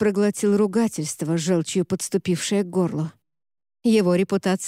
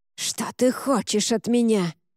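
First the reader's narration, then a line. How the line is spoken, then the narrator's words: Hissing. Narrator (Russian): прошипел Уорд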